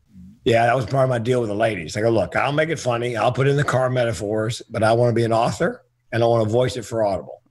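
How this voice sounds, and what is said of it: Strained, worn-out voice. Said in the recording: “my voice is shot.”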